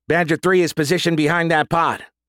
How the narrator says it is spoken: Morales shouted

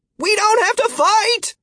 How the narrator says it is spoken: Martin shouted back over his shoulder

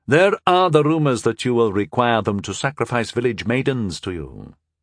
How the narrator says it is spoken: he added dryly

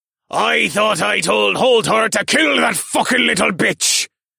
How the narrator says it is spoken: Captain Karnog's voice bellowed

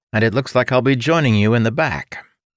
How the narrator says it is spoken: Ilden's illusion shouted

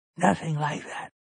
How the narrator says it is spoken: Rowan whispers

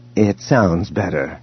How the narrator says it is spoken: he said quietly

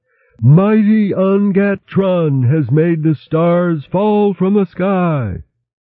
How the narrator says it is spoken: the 20 guards nearest the mountain roared out aloud

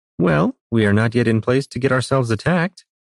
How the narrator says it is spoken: Juliana said cheerfully

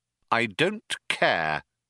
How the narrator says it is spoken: said Arthur coldly

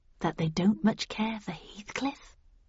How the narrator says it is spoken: I whispered back

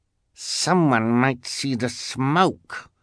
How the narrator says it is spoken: Esme snarled

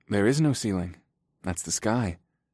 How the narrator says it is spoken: I said quietly

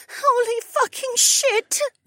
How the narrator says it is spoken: Becca whimpered

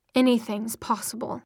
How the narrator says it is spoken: Simon put in bitterly

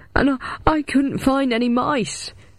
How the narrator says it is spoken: he howled

